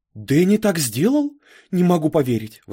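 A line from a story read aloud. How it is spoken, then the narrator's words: Teacher exclaiming. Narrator (Russian): воскликнула учительница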